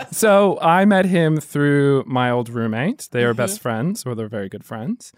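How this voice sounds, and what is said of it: Slight Australian accent. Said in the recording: “you will hear a slight Australian accent from my friend ... even though he was born and raised in New Jersey”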